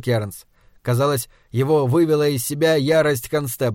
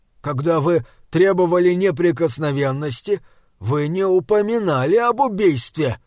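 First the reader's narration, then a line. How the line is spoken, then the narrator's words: Indignant exclamation. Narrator (Russian): в негодовании воскликнул Морган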